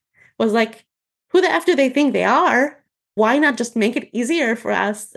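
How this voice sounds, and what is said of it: Annoyed, agitated voice. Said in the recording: “you can probably hear it in my voice ... I'm wildly gesticulating my voice, like doing weird things. And I'm annoyed even talking about that.”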